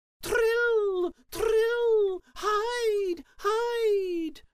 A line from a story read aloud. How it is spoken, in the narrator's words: The swallows cried